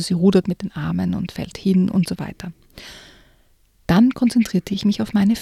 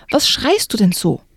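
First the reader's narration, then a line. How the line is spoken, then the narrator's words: Roared. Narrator (German): brüllte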